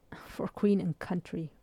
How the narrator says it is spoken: Ray groaned

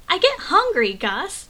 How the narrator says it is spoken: Sean shouted

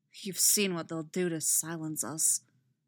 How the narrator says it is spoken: Adlin says bitterly

